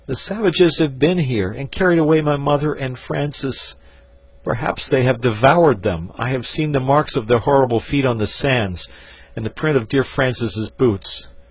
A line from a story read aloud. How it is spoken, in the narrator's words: he sobbed out